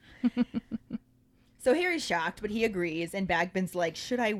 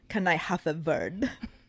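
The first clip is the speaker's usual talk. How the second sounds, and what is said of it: Deliberately bad Bulgarian accent. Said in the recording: “my terrible Bulgarian accent”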